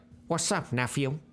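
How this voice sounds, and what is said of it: Bad imitation of another person's voice. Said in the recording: “doing a bad Snoop Dogg impression ... That sound better?”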